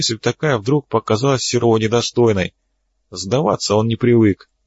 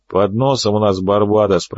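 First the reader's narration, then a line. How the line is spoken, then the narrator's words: Grumble. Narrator (Russian): проворчал боцман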